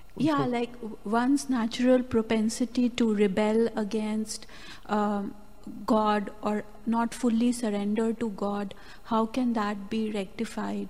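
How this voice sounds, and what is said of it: Speaks with a slight accent. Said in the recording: “you have a little bit of an accent.”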